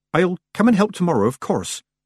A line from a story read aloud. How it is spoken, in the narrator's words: said Petulia, nervously